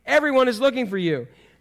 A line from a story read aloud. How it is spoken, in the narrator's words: they exclaimed